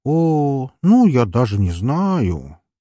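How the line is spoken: Drawl. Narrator (Russian): протянул

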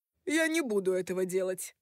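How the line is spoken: Scoffing. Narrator (Russian): хмыкнул Рой

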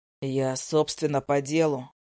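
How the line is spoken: Hoarse voice. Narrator (Russian): охрипшим голосом говорит

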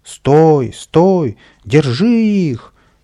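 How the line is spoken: Loud shouting. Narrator (Russian): громко кричал садовник

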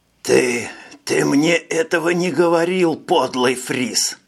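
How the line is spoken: Hiss. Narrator (Russian): Прошипел Понан

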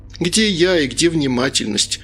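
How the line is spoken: Nearly laughing. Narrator (Russian): Лена едва не рассмеялась

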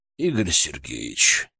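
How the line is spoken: Quiet call. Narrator (Russian): тихо позвал меня Витольд

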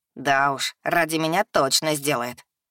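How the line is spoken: Snorting. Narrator (Russian): хмыкнул Олибелара

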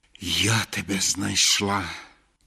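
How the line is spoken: Soft breathy gypsy woman. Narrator (Ukrainian): Тихо і з глибоким віддихом мовила циганка

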